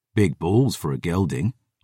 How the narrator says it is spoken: I muttered

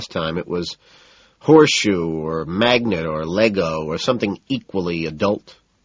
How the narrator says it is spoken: Price sneers

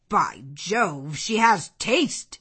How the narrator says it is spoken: exclaimed Henry Lynn

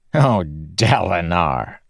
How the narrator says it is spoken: Satius said, chuckling

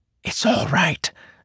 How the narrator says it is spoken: Shallan whispered

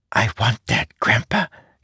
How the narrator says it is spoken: he whispered

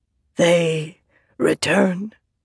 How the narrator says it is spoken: Maya said in her rasping voice

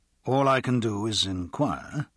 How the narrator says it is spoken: Pierce said

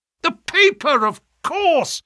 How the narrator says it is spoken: yelled Holmes in a paroxysm of excitement

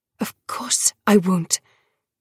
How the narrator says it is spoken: hissed

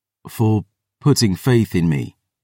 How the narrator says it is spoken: I said

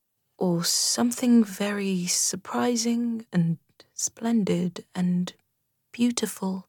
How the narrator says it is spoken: murmured Rat

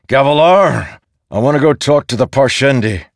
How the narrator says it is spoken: He bellowed

